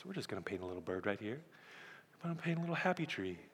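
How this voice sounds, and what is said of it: Soothing, soft imitated voice. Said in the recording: “he would have this soothing, soft little voice ... his voice is so soothing”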